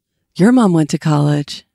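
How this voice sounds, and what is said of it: Impression of a movie character's voice. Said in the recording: “do a Napoleon Dynamite impression? ... It's not that good. ... it's pretty good for no prep.”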